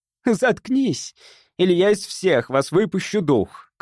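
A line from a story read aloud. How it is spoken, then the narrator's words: Shouted. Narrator (Russian): крикнула Чен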